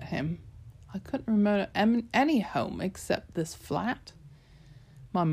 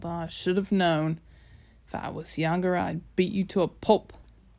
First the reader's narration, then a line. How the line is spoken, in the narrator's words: Gramps growled